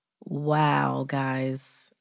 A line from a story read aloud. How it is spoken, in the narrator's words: Nate laughed, trying to sound as if he wasn't about to wet himself